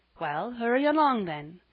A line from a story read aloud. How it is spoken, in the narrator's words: said Mrs